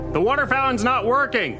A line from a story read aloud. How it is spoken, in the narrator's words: you shout